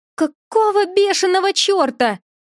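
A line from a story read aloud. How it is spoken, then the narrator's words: Continued screaming. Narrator (Russian): продолжала вопить журавль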